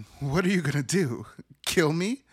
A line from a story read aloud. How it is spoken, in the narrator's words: She laughs, asking